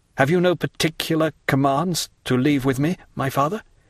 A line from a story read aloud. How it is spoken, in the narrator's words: inquired Maximilian in a faltering voice